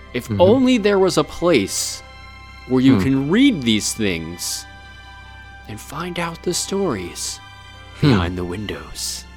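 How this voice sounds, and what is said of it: Mysterious dramatic voice. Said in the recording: “That was very mysterious of me. I don't know why I was doing that voice for it.”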